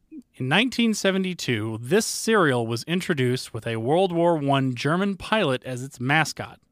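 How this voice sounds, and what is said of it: Usual voice. Nothing is said of it.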